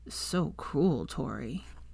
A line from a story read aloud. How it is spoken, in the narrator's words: he said quietly, wanting her to know that he was not amused